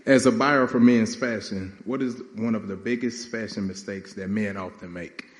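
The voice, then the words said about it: Country accent. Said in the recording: “Excuse the country accent.”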